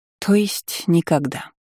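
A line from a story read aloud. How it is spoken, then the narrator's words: Sighing. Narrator (Russian): вздохнула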